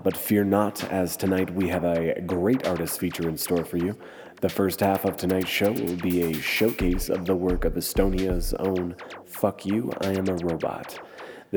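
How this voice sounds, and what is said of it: Congested, stuffy-nosed voice. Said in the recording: “I sound a bit congested, ... I just spent the last week in bed with the flu”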